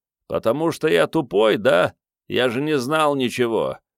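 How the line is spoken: Grumbling. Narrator (Russian): заворчал Начо Пирот

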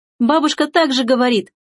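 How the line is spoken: Joyful. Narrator (Russian): радостно откликнулась Эрмина

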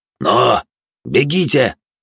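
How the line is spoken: Barked. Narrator (Russian): рявкнул я

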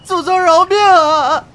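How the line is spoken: Wailing in pain. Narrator (Chinese): 小内患受不了毒打，伏在凳子上哭喊着

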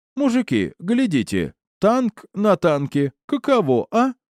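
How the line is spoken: Cheerful laughter. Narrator (Russian): весело рассмеялся он

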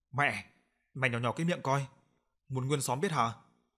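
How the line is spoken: Harsh, gritted voice. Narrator (Vietnamese): gằn giọng

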